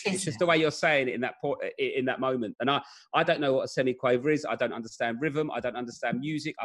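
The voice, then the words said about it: Cockney Southeast London accent. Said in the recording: “my accent ... it's like the Cockney accent, yes. Southeast London accent”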